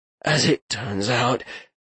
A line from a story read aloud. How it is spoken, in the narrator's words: Garrick rasped